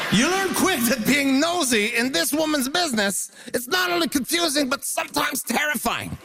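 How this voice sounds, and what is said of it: Newfoundland accent mixed with French Canadian. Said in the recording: “the accent making fun game ... A Newfoundland accent inside a French Canadian. It's like a turducken of an accent”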